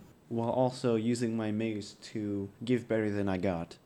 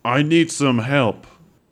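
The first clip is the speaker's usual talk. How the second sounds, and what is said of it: Loud yelling voice. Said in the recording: “My voice is still loud for a minute more, so I'm just going to yell”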